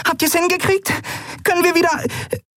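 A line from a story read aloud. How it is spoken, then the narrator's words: Squeaky. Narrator (German): piepste sie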